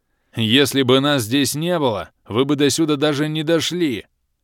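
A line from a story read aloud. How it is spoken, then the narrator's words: Growled. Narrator (Russian): рыкнул Алый Барс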